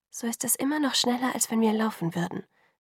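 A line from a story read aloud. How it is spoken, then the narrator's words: Quiet admonishing. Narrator (German): ermahnte sie mich leise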